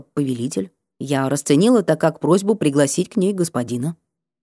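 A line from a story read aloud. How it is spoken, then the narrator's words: Mumbling. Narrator (Russian): Она пробормотала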